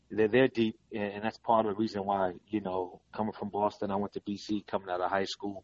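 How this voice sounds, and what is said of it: East Coast (Boston) accent. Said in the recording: “I still have the accent, so people know that I'm from the East Coast”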